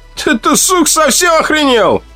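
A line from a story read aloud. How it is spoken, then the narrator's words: Yelled. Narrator (Russian): заорал он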